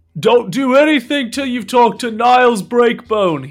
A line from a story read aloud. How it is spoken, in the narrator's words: he shouts down